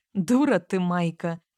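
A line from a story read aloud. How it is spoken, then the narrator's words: Laughing snort. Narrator (Russian): фыркнула, рассмеявшись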